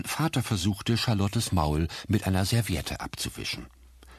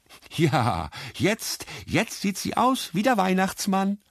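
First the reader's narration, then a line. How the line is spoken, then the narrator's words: Louder laughing. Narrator (German): lachte lauter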